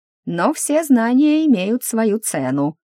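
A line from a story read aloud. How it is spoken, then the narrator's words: Drawling. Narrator (Russian): протянул он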